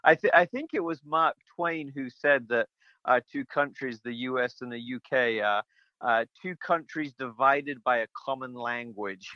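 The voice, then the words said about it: British English accent, slightly Americanized. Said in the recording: “you don't have the same accent as a lot of my guests. You have that delightful UK accent ... there's a little bit of my accent left ... my accent has been corrupted as some American has kind of fallen into it”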